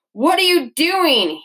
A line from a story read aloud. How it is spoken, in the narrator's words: he yelled